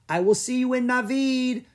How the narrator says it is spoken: Echo called out

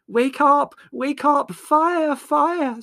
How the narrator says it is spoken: screamed Margot at the top of her voice

